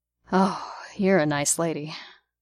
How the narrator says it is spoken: Barnes sighed

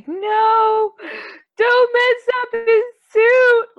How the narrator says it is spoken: Screaming like

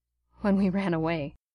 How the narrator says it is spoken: Steve replied softly

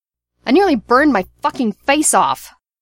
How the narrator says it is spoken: Bucky shouted

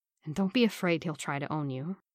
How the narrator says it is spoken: Steve murmured

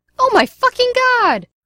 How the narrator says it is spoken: Gideon shouted again

